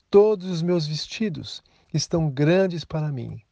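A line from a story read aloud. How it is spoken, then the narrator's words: Sighing woman. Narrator (Portuguese): Com um suspiro, ela disse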